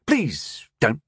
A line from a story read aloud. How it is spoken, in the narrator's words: the wizard said sharply